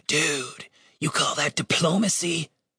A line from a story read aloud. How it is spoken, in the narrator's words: He whispered